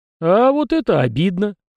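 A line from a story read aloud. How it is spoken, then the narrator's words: Young man's chuckle. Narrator (Russian): хохотнул парень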